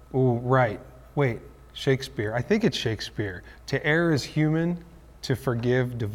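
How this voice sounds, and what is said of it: Usual voice. Nothing is said of it.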